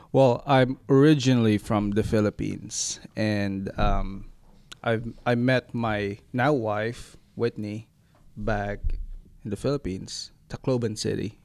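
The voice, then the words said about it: Noticeable foreign accent. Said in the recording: “you have a fun accent”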